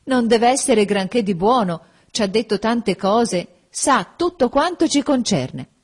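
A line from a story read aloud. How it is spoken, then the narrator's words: Breathless group exclaiming. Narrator (Italian): correndo ed esclamando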